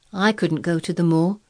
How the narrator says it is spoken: he said in a resentful tone

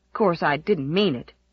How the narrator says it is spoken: he muttered shamefacedly

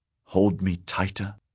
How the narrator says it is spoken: he whispered

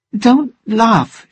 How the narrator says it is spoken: she said crossly

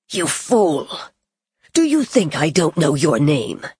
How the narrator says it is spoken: said harshly

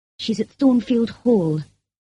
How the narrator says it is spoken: replied Mason in a weak voice

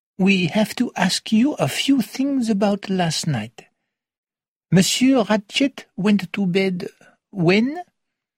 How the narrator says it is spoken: said Monsieur Poirot gently

